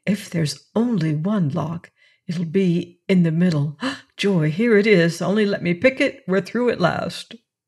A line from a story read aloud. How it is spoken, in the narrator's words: whispered Raffles